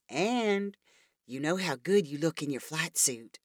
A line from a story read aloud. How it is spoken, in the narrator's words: said Laura in a sultry voice